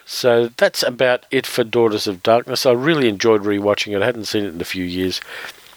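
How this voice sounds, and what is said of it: Strained voice giving out. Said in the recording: “As you can probably hear, my voice is giving out”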